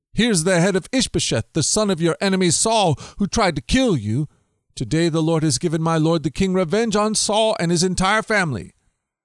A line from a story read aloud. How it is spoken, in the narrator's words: they exclaimed to David